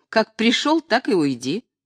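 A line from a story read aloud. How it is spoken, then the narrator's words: Laughing. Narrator (Russian): Цыганка худощавая засмеялась и сказала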